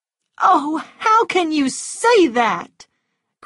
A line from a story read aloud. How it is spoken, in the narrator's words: cried Scarlett, tears coming into her eyes